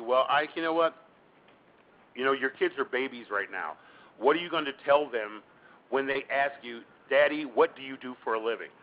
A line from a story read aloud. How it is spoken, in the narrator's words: I said